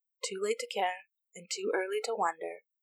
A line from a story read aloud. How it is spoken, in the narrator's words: she said softly